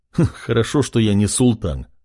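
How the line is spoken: Chuckling young man. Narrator (Russian): хохотнул парень

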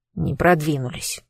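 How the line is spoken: Grumbling cat. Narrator (Russian): буркнул котик

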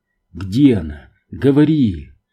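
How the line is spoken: Hoarse rasp. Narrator (Russian): Кэм прохрипел

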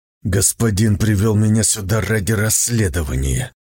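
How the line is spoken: Through gritted teeth. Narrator (Russian): сквозь зубы сказал Сун Цзиюй

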